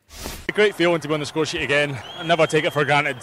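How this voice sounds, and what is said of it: Scottish accent. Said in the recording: “How good is that accent, by the way? Yeah. The Scotch accent.”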